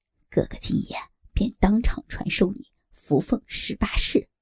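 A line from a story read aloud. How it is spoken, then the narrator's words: Secretive low voice. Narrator (Chinese): 尤巴神秘兮兮的压低声音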